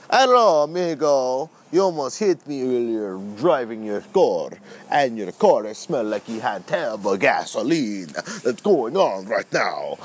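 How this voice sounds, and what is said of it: Put-on Count Dracula accent. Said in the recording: “I am Count Dracula right now. Do you want to see my accent”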